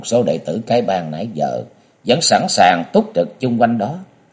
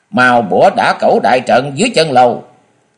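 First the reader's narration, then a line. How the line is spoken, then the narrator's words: Powerful female shout. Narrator (Vietnamese): nàng tụ khí đang điền rồi thét tiếng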